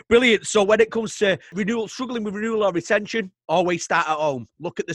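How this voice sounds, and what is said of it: Mancunian English accent. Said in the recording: “people with your accent is that they're very blunt ... My wife's also a Mancunian. She's got the same accent as me”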